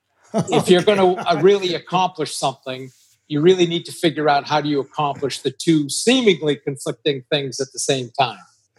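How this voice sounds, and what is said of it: New England accent. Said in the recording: “That's that New England accent coming through there.”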